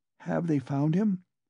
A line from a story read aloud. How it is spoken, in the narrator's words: she asked timidly